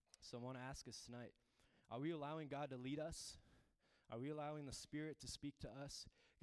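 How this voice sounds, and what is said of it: Hoarse, worn-out voice. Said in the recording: “my voice is gone. I was singing so loud.”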